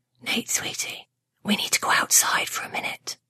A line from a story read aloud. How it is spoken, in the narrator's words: Mom whispered in his ear